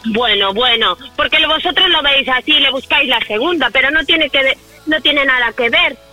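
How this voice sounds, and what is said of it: Shouting, raised angry voice. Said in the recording (Spanish): “No grites, que estás gritando todo el rato.”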